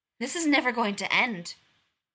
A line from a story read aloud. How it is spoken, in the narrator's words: McCoy snaps